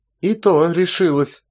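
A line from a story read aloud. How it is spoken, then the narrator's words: Angry reply. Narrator (Russian): ответила сердито Мелания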